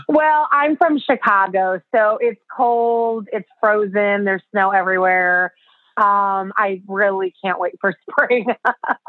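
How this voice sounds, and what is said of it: American accent. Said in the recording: “I hear an American accent”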